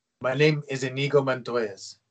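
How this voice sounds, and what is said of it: Imitates a movie character's accent. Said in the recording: “Excellent accent. Yeah, that's a great impression.”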